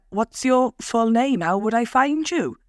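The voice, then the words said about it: Attempted Welsh accent. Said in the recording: “I don't know if I can do an accent. ... I feel like I sound like Postman Pat. He's Welsh, isn't he?”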